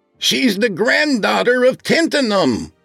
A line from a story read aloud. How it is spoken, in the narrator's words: he shouted through the door